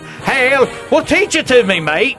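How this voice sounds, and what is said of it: Put-on Australian accent. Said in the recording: “He did it in his Australian accent ... I don't know if that was an Australian accent.”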